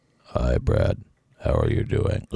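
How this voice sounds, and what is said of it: Deliberately very low, deep voice. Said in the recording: “Listen to how low I can get my voice. It's very low... Do you hear how low my voice is? It's just a little, like, pebbles bumping on the street.”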